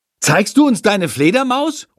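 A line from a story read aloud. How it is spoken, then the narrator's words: Calling out. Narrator (German): ruft Lukas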